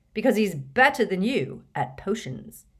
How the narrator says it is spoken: he added, sternly

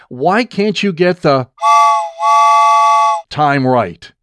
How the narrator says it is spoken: he yelled at me

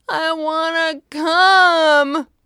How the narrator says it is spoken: wailed Asher

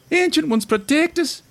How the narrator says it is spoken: shrieked the young noble dwarf

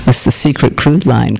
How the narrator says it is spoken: Clark said

